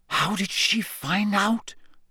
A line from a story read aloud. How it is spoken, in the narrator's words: he whispered